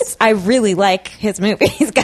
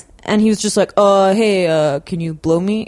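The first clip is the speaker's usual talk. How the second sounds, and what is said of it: Imitates another person's voice. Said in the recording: “that was an uncanny impression”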